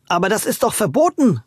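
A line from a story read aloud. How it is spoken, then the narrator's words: Calling out. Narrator (German): rief Louis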